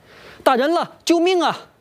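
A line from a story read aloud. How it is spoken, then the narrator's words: Mother-in-law crying out. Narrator (Chinese): 岳母刘桂芳也跟着一起呼喊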